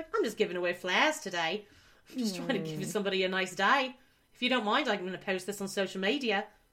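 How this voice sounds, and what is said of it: Put-on New Zealand accent. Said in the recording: “I think it's in New Zealand, maybe? ... he has like such a great accent ... That's pretty good accent I just did, hey? ... That was pretty good.”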